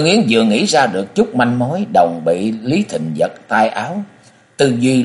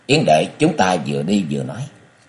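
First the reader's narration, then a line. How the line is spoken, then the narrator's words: Soft. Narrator (Vietnamese): Lý Thịnh khẽ nói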